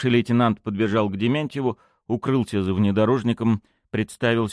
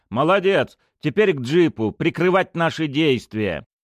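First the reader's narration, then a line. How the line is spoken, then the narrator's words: Shouted. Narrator (Russian): Тимохин крикнул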